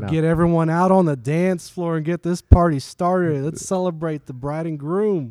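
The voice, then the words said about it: Hyped wedding DJ voice. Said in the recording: “Give us that DJ voice right now.”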